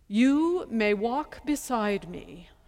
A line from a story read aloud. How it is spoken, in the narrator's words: Hushmakaka said in his most regal voice